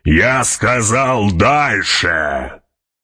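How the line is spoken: Roaring. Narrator (Russian): проревел барон

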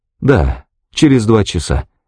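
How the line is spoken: Sad reply. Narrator (Russian): ответила Пэт и печально добавила

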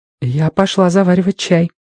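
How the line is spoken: Flustered whisper. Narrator (Russian): в смятении прошептала Робин

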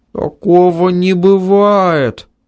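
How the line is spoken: Frightened speech. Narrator (Russian): испуганно сказал Ванька

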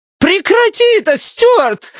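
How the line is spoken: Shriek. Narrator (Russian): завизжала Лукреция

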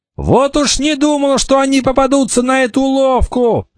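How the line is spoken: Shouting. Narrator (Russian): закричал Кикаха

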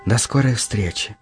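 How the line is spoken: Quiet reply. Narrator (Russian): тихо ответила ты

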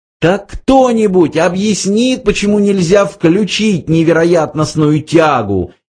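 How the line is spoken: Hysterical scream. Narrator (Russian): истерически закричала Триллиан

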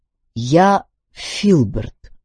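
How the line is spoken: Plain. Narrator (Russian): сказал он наконец

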